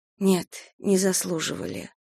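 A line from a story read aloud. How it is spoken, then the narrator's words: Quiet agreement. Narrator (Russian): тихо согласилась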